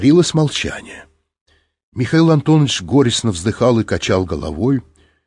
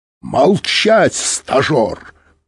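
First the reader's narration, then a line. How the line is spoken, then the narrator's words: Roared. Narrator (Russian): проревел Быков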